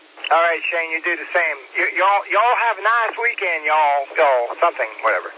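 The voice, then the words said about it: Put-on Southern accent. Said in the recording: “That's Southern accent.”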